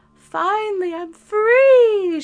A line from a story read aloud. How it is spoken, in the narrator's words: shrieked